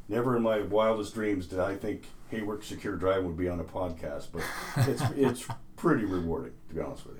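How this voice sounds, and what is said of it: Radio announcer voice. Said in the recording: “you still got that radio voice”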